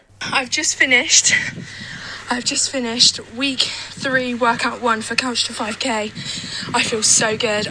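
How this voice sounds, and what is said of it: Breathless, panting speech. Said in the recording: “I'm out of breath, ... As you can tell by my breath, I'm a bit tired”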